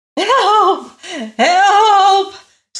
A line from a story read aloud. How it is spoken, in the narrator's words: screamed the king